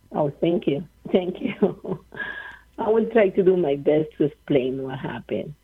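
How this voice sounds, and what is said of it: Speaks with a noticeable accent. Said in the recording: “I like your accent. It's beautiful.”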